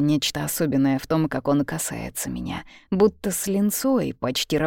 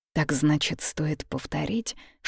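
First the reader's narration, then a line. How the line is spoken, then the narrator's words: Whispered question. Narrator (Russian): шепотом спрашиваю я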